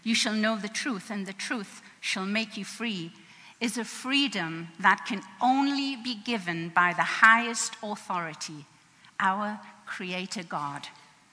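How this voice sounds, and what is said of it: English accent. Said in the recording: “what's that accent? ... I'm from England, and I guess the accent's here to stay.”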